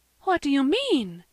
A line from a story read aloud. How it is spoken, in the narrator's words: gasped Mrs